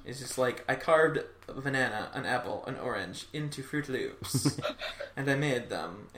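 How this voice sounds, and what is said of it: Put-on comic accent. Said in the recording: “I don't know why I gave them an accent.”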